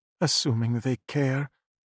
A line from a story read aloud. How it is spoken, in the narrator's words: his mother muttered